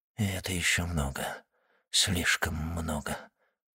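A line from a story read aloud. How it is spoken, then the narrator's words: Whispered. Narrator (Russian): прошептал Вильфор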